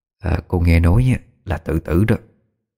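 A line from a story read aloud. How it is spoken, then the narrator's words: Soft whisper. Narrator (Vietnamese): Đoàn bà thì thầm nho nhỏ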